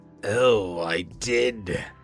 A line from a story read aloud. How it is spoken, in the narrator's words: Cassandra sneered